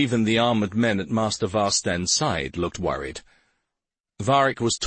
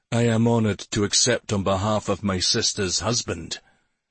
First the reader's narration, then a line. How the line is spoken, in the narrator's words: his voice rumbled as he replied